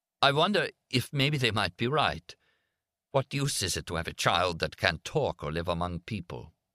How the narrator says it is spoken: Suddenly, to his own surprise, he burst out in a choked voice

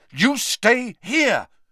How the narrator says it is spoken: Harry repeated angrily

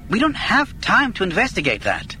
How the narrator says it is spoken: Galen snapped

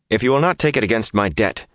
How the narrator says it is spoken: said firmly

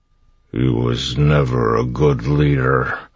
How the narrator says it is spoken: it said in a slurred voice

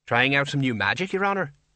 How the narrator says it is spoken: said brightly

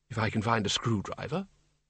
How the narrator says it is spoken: said quietly

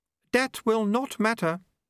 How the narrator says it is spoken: said Unity calmly

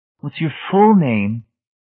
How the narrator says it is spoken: He sighed

